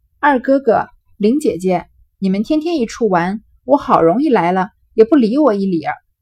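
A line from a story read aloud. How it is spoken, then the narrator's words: Laughing. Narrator (Chinese): 湘云笑道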